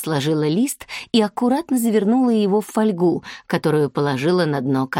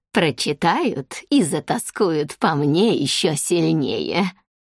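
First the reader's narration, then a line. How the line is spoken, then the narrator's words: Giggling like naughty girl. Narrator (Russian): словно нашкодившая девочка хихикнула Кымнам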